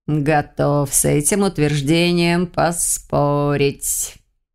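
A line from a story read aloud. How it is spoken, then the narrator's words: Hissing. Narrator (Russian): В лучших традициях змейса прошипел Свир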